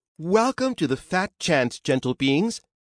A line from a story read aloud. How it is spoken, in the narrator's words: said warmly